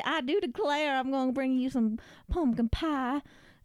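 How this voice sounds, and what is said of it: Put-on Southern Texas accent. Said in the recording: “she had a southern... I imagined she had a Texas accent”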